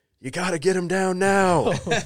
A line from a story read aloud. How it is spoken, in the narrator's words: Chris starts yelling up to me